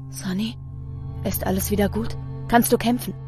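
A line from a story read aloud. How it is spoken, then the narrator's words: Very quiet whisper. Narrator (German): Ganz leise wispert der Herrscher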